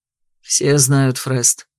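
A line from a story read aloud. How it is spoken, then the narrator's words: Displeased grumble. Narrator (Russian): буркнул я недовольно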